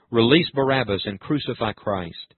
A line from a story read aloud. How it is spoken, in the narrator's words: angry people, and the mob cried out